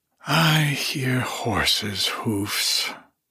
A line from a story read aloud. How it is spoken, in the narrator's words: sighed Hyacinthia